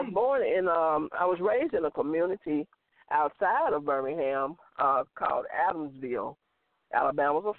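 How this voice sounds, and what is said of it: Strong Southern American accent. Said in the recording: “You have a strong Southern accent.”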